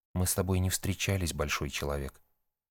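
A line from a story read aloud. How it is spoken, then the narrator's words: Calm. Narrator (Russian): спокойно ответила Ния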